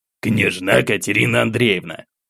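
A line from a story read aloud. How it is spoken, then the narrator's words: Gruff mutter. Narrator (Russian): буркнул граф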